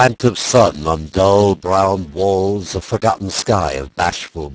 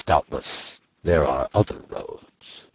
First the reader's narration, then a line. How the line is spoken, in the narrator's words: he mumbled at last